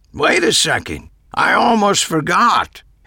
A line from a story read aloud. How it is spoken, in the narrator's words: Harry yelled